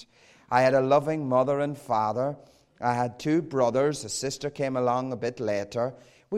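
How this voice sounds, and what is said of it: Southern Irish accent. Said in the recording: “I grew up in a loving Roman Catholic home in the south of Ireland. You can tell that from my accent.”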